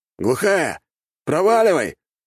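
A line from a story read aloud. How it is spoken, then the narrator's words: Shouted by a man. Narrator (Russian): выкрикнул второй мужчина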